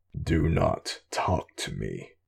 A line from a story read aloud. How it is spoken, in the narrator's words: rumbled